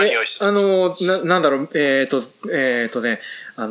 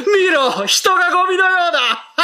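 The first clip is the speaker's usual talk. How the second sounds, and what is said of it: Imitates an anime villain's voice. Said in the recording (Japanese): “天空の城ラピュタのムスカを練習してたんですけれども ... モノマネを用意しているということなので”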